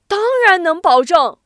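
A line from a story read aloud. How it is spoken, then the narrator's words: Shouting across courtyard. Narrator (Chinese): 薛池又在院子里喊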